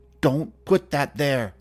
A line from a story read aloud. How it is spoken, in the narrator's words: She glared at me sternly and shouted